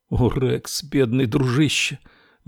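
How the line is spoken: Near moan. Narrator (Russian): Мэрилу почти простонала

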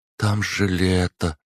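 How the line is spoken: Utterly hopeless voice. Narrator (Russian): каким-то совершенно безнадежным голосом проговорила она

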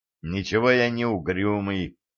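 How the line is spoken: Mumbling. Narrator (Russian): пробормотал Валентин

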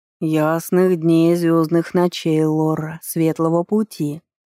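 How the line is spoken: Old creaky voice. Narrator (Russian): проскрипел старый древесный человек

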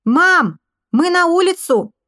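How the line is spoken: Shouted. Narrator (Russian): крикнул я

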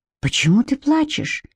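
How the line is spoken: Surprisingly gentle. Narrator (Russian): спросил он на удивление мягко

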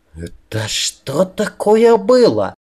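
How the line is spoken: Fierce hissed whisper. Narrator (Russian): зашипела мне страшным шепотом в ухо Аннабель

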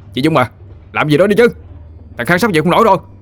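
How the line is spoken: Uncontrolled howling. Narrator (Vietnamese): Nó gào lên một cách mất kiểm soát

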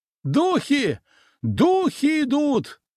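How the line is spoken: Someone screaming. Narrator (Russian): завопил кто-то

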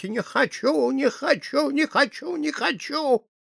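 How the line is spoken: Screaming and shrieking. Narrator (Russian): принялась кричать и визжать

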